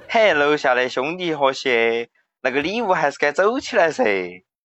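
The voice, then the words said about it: Sichuan dialect. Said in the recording (Chinese): “给大家表演几句四川话”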